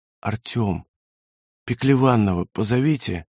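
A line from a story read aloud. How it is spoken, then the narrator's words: Faint calling whisper. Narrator (Russian): слабый шепот, который звал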